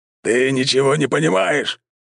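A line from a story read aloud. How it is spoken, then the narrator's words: Old man roaring. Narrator (Russian): взревел дед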